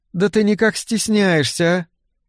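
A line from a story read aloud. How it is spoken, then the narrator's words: Soft laugh, surprised question. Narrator (Russian): Дебби негромко рассмеялась и с ноткой удивления спросила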